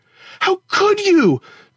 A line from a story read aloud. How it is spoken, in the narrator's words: Tara screamed